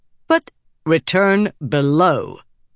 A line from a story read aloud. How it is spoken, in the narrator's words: the king said through Talik, her voice growing harder